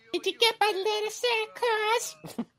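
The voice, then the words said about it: High-pitched little girl voice. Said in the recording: “What voice was that? ... That was my little girl voice.”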